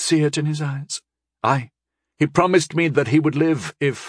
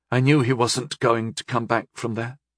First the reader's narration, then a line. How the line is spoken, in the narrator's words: she said bitterly